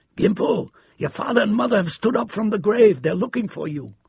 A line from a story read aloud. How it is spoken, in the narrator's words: called out in her hoarse voice